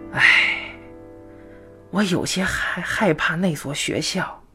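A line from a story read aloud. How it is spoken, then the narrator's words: Sighing. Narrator (Chinese): 傅姐又叹了口气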